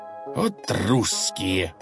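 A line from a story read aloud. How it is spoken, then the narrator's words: Growled. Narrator (Russian): прорычал Бекет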